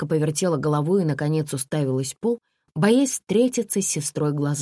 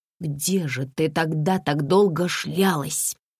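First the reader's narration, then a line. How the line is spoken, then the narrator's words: Angry hushed whisper. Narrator (Russian): злым шепотом спросила Комарова, боясь потревожить Саню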